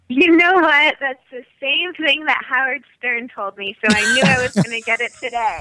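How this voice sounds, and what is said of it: High, girlish, childlike voice. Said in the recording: “you sound like a little girl. You sound like a 14-year-old girl. ... you sound like a baby”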